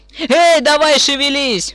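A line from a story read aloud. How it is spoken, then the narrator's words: Sudden yell. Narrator (Russian): внезапно заорал Дин на водителя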